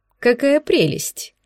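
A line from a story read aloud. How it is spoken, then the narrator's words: Laughing. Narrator (Russian): засмеялась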